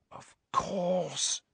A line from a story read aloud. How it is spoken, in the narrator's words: she breathed